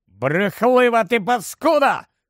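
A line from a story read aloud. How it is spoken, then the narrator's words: Wizard shouting. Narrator (Ukrainian): крикнув чаклун, якого звали Селден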